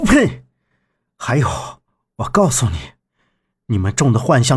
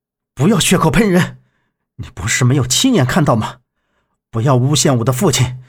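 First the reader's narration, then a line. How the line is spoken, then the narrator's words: Angry shout. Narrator (Chinese): 杨木…怒喝道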